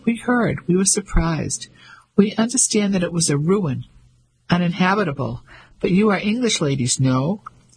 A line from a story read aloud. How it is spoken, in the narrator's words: His voice was light and quite high